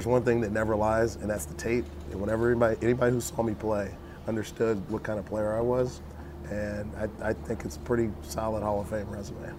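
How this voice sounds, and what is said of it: Raspy, hoarse voice. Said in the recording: “Sorry for my raspy voice. ... a raspy Ronde”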